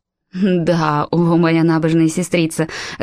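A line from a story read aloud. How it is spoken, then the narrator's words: Loud mocking laughter. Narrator (Russian): расхохоталась Ханна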